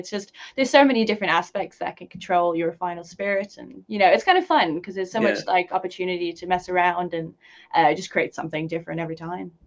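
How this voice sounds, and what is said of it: Irish accent, little South African trace. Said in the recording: “you don't really have much of a South African accent ... neutral almost ... I think a very Irish accent”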